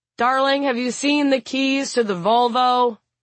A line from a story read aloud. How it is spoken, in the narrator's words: Peter yells to the house in general